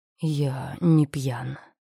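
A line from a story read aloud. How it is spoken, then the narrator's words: Man speaking hoarsely. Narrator (Russian): хрипло сказал мужчина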